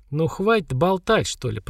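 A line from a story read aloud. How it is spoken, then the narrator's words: Mutter. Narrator (Russian): пробормотала Хагра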